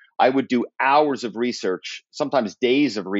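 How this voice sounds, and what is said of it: Usual voice. Nothing is said of it.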